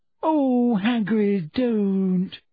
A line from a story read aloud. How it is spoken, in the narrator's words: moaned Hermione